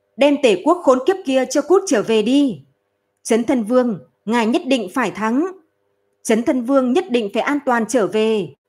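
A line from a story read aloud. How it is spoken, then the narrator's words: Loud shouting. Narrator (Vietnamese): lớn tiếng hô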